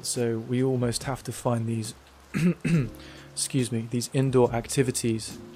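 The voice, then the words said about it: Dry voice. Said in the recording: “my voice is so dry”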